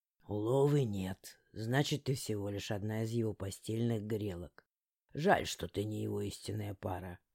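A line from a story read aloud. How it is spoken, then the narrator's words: Muttered. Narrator (Russian): пробормотал он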